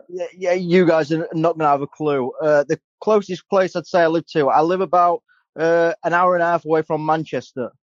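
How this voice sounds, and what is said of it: British English accent. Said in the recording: “I love the accent. I wish I had it ... British ... I'm from England, mate”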